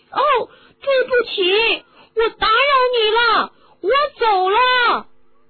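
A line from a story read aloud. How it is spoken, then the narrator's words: Raised voice, nearly shouting. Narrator (Chinese): 哈利提高了嗓门，他简直都要喊起来了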